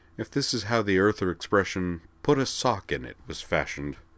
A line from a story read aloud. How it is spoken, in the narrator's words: Beld said quietly